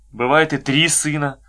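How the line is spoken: Gloomy, sighing. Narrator (Russian): сумрачно сказал Ковалев и тоже вздохнул, не скрывая своего вздоха

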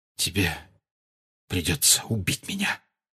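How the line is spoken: Whispered. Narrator (Russian): прошептал Сириус

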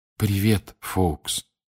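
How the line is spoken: Quiet whisper. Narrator (Russian): тихо прошептал Гарри

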